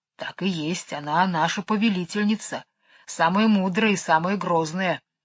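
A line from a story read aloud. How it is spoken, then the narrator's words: Quiet, respectful bear. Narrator (Russian): негромко с почтением сказал бурый медведь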